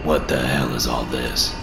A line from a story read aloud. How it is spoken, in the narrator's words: Bree muttered